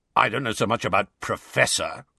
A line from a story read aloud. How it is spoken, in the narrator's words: growled the voice